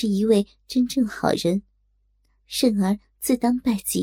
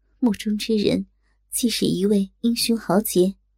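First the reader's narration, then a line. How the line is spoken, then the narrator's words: Soft sigh after long pause. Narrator (Chinese): 若真良久之后，轻轻叹道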